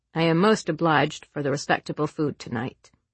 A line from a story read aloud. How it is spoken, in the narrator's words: he said stiffly